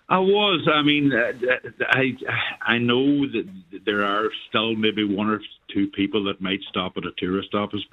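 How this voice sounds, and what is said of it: Donegal Irish accent. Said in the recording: “another lovely Donegal accent ... Originally from Derry”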